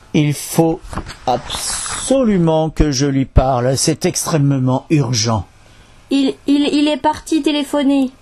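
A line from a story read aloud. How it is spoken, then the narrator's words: Trembling voice. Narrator (French): déclara d'une voix tremblante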